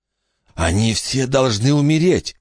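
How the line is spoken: Hoarse whisper. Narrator (Russian): хрипло прошептал Билли

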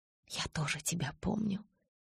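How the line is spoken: Soft whisper. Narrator (Russian): тихо шепнула я

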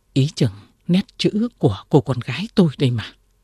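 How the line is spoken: Sudden frightened speech. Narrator (Vietnamese): bà bỗng sợ hãi nói

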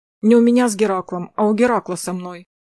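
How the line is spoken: Irritated, curt. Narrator (Russian): раздраженно бросила она

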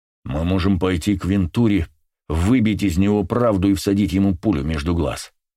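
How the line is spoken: Growling. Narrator (Russian): прорычал он

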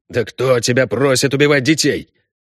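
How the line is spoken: Angry hiss. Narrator (Russian): прошипел незнакомец зло

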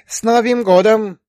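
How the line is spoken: Joyful ringing voice. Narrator (Russian): радостно зазвенела синьорита Снегурочка

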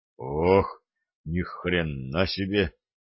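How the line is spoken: Strained exclamation. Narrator (Russian): выдавил Юра

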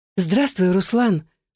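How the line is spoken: Purred. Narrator (Russian): Промурлыкала

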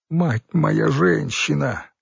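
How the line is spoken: Ferret nearly sobbing with joy. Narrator (Russian): едва не рыдал от счастья хорь

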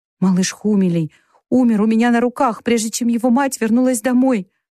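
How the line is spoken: Sobbing. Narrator (Russian): всхлипнула Бет

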